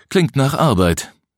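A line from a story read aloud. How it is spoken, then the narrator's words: Sighing. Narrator (German): seufzte Till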